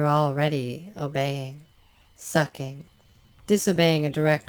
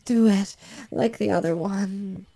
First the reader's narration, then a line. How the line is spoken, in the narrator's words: She moans and can't seem to get out what she wants to say, she moans